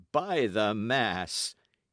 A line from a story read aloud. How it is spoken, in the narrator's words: he cried at length, and laughed with open throat